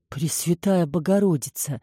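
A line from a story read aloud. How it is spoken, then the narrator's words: Awestruck whisper. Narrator (Russian): прошептала Баси, не в силах оторвать от нее глаз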